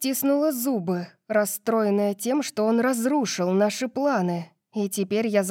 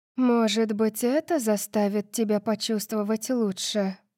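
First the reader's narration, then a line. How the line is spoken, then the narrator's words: Purring. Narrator (Russian): промурлыкала Ашанти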